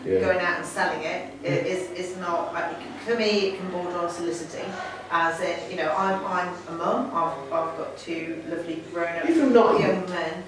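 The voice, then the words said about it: Yorkshire English accent. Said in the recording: “You've got a lovely accent.”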